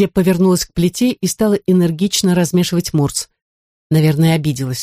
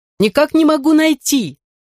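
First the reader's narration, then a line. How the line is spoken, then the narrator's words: Shouting again. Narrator (Russian): снова крикнула Анна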